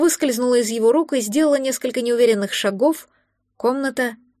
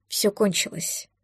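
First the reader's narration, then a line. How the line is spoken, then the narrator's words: Quiet. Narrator (Russian): тихо сказал он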